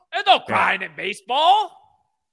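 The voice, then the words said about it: Imitates another person's voice. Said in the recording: “Yours is terrible. ... my best impression”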